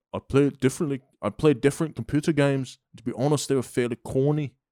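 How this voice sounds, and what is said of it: Attempted Scottish accent sounding Liverpudlian. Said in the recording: “Scottish accent ... That was pretty Liverpool-y ... you sounded like you were in the Beatles”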